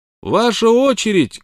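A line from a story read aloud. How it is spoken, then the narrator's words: Shout. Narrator (Russian): крикнул он Смоку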